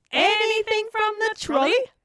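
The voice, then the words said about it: Imitation of Marjorie Mason's trolley line. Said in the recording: “loved that line. It is so much fun to imitate, as you have done for us several times this episode ... Once more with feeling.”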